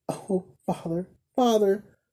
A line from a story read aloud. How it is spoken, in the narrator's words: cried the blind girl, bursting into tears